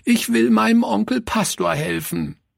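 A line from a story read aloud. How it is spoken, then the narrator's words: Sobbing cry. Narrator (German): rief schluchzend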